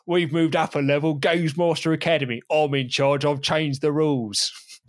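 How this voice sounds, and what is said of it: Dexter Fletcher impression. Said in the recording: “your Dexter Fletcher impression ... you've got 26 episodes to improve it”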